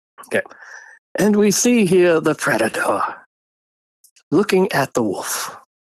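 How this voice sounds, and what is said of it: David Attenborough impression. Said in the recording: “David Attenborough ... can you do an impersonation? ... That's pretty good.”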